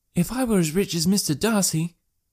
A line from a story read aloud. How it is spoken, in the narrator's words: cried a young Lucas